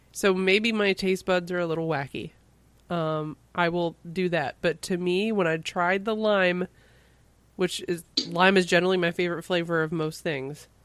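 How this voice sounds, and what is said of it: Sick-sounding voice. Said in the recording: “maybe it's because I'm still sick, as you can tell from my voice.”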